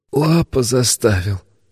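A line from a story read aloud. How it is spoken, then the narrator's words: Hopeless wheeze. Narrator (Russian): обреченно просипел он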